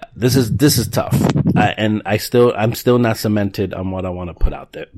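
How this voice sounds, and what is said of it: Sniffly, tired-sounding voice. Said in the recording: “Sniffles and fans and all. ... Sorry about my voice. I had a long day at work.”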